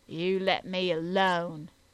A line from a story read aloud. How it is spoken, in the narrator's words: growled the butcher